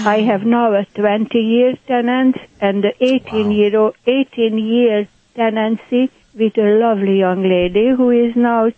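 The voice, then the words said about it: Hungarian accent. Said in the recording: “My accent, by the way, is Hungarian. ... I love your accent.”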